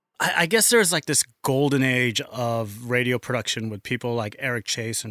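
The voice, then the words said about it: American accent. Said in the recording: “if the accent didn't give it away, spent most of his career in the US”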